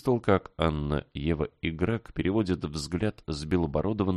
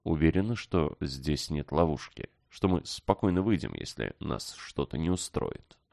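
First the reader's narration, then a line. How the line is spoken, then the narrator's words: Secretive mutter. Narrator (Russian): Стараясь, чтобы старец не слышал, Иван пробормотал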